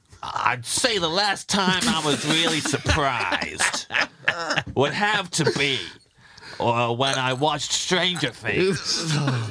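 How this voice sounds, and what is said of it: Put-on general American accent. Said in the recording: “in my American voice? ... That's my American voice that I would do if I was in Stranger Things, and people would think I was American”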